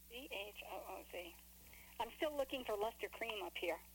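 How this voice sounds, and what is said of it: New York accent. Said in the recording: “New York accent”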